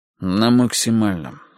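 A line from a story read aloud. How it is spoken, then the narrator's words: Sighing. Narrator (Russian): вздохнул я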